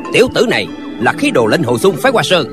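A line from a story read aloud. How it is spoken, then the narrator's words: Distant shout. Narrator (Vietnamese): có người ở phía đông quát lên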